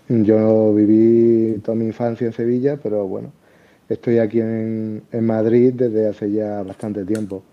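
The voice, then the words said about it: Andalusian Spanish accent. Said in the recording (Spanish): “por mi acento y eso, podéis pensar a lo mejor que, que soy de Andalucía”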